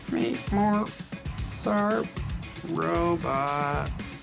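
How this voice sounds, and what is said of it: Poor imitation robot voice. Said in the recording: “do the robot voice ... That's a terrible robot voice.”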